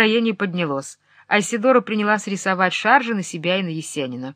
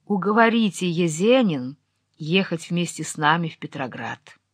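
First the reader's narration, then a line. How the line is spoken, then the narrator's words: Quiet pleading voice. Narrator (Russian): умоляющим голосом тихо сказала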